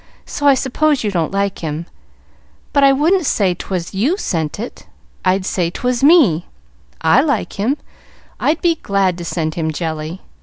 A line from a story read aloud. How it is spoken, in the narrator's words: admitted Pollyanna sadly